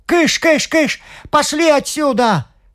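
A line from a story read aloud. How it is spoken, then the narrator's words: Shouting as if shooing chickens. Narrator (Russian): закричал хозяин, чтобы великан думал, будто он отгоняет кур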